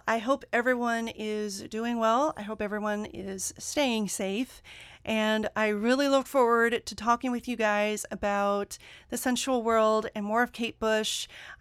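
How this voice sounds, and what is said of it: Excited, energetic speaking voice. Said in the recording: “I'm just getting super excited just thinking about it. I mean, you can probably hear it in my voice.”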